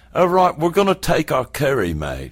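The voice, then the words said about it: Imitated English accent. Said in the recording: “I'm going to do her accent.”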